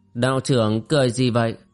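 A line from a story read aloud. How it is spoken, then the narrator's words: Cold. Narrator (Vietnamese): Tôn Bất Tà lạnh lùng nói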